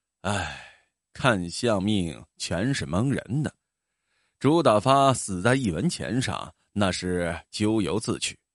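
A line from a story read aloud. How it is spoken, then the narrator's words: Long sigh. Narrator (Chinese): 孙半仙长叹道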